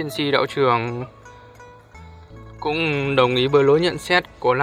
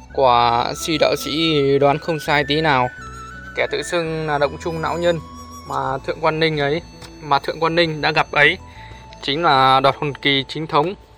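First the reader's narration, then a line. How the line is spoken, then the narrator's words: Sighing. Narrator (Vietnamese): Gia Cát Giật thở dài gật đầu rằng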